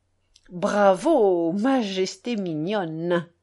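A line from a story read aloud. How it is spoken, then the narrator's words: Low voice. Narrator (French): dit à voix basse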